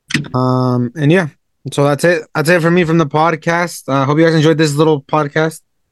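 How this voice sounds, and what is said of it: Slightly sick, not-quite-normal voice. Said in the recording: “I'm a little sick still. My voice isn't 100%.”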